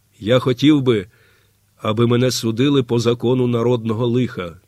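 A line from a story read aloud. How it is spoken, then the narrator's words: Quiet and clear. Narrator (Ukrainian): тихо і виразно сказав Лаврін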